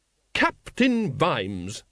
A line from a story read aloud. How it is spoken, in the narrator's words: she said sharply